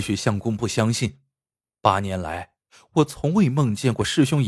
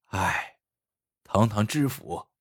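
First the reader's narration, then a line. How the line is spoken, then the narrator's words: Quiet sigh. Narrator (Chinese): 也有人暗暗叹息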